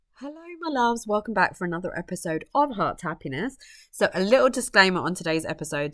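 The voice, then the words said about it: Strained, failing voice, coughy. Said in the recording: “losing my voice ... I am a little bit coughy and a bit spluttery, and my voice does go”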